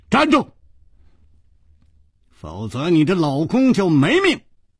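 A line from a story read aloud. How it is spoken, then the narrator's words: Shouted. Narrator (Chinese): 楚留香喊道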